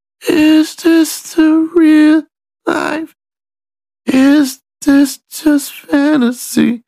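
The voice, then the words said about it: Deliberately bad, quiet singing imitation. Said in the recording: “I'm gonna do my best imitation, because it's gonna have to really suck... it'd be real quiet... it was bad”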